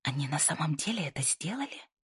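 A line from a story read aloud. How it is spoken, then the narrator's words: Whisper from behind. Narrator (Russian): прошептал кто-то сзади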